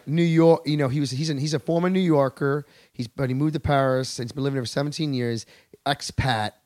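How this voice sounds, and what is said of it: Usual voice. Nothing is said of it.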